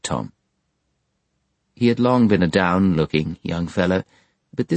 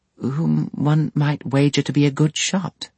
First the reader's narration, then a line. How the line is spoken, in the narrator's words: Sparsit sweetly